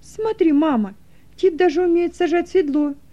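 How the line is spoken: Joyful babbling. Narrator (Russian): Радостно лепетала Руфь

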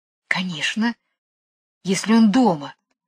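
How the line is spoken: Whisper. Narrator (Russian): шепнула Джейн Майклу

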